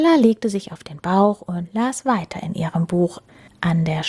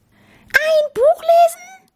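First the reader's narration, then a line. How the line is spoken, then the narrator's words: Shouting. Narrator (German): schrie Maurice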